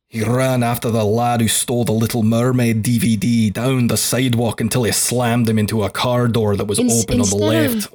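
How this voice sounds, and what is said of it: Exaggerated heavy Scottish accent. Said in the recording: “going so hard on the Scottish accent ... he's going for the groundskeeper Willie sound”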